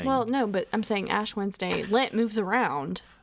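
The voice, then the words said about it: Piedmont North Carolina accent. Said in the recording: “That's very, very Piedmont, North Carolina accent of yours.”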